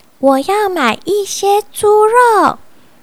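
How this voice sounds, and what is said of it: Quiet, soft-spoken line. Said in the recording (Chinese): “小声的对盼老板说”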